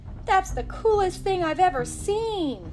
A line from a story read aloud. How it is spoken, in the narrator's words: Liam yelled down to his friends